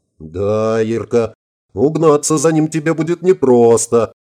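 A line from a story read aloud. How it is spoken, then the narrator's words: Laughing loudly. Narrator (Russian): расхохотался Семенов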